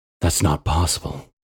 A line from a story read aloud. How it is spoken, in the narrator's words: Aaron murmured